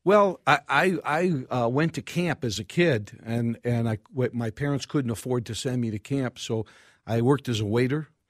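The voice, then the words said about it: New York accent. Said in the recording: “you don't have a St. Louis Park accent. ... I tried to get rid of my New York accent in front of a mirror for years, but it didn't work ... everybody that heard my voice said, you must be from New York.”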